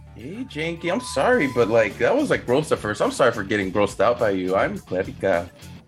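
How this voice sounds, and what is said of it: Woman's character voice. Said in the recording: “you sound like a woman with that voice. It's a good voice you got there.”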